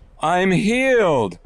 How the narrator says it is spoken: cried as tears of joy streamed down his face

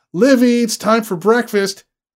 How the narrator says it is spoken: A jangly flutter of nerves, he called for her, brought his hands up and yelled

